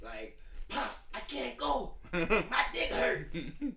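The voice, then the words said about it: Poor imitation of another person's voice. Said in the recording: “terrible Danny Green impression”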